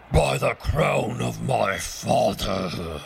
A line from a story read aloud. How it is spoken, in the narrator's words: roared the king